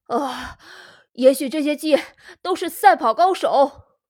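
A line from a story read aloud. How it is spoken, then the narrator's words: Breathless, panting. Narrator (Chinese): 汤姆气喘吁吁地说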